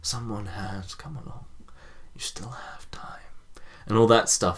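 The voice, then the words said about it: Quiet impression of a film character. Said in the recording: “That Xavier impression is dangerously close to your Gandalf.”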